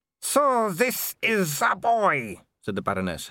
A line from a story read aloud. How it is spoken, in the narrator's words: her voice slurring